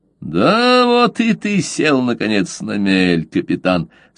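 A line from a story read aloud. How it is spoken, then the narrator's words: Quiet spiteful vengeful laugh. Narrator (Russian): сказал Каузак и рассмеялся негромко, злобно и мстительно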